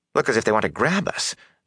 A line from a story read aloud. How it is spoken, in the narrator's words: said nervously